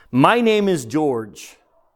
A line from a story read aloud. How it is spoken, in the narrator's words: he said